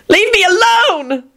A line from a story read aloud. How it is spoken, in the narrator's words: Elizabeth yelled and burst into tears